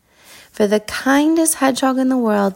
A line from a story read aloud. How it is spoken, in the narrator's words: they all cried together